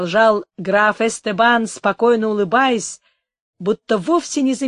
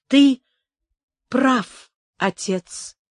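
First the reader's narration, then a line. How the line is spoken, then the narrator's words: Weak voice. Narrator (Russian): сказала она слабым голосом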